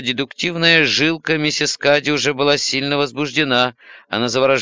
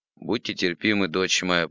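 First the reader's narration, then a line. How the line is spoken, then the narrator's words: Mumble. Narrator (Russian): пробормотал отец Журден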